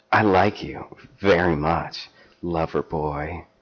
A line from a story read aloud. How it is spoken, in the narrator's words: she purred